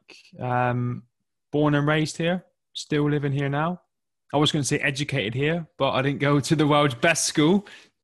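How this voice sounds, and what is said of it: English southwest accent. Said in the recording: “you can probably tell from my accent that I'm from England. And I grew up in the southwest of England, in a county called Devon”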